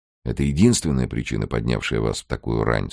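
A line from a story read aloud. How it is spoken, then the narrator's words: Plain. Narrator (Russian): спросил Тэ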